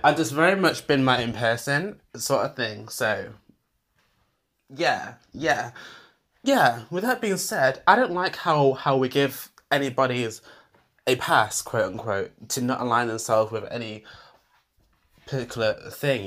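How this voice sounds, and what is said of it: Squeaky British accent. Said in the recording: “my squeaky, squeaky British voice”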